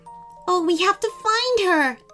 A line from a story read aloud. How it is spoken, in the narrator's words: Ella gasped